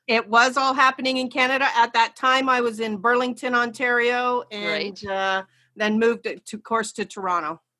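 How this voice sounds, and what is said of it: Canadian accent. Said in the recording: “I hear your accent because I have some very good friends that are north of the border”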